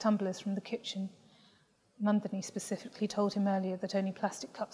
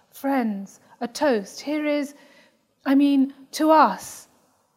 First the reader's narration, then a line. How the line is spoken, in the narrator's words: shouts